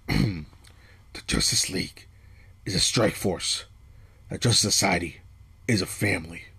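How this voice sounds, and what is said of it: Batman voice impression. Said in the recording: “I'm about to try to do a Batman voice, so don't hate on me.”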